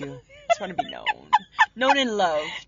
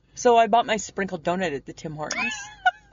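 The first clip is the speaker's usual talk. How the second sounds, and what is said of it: Mock-serious voice. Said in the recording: “So this is my serious voice.”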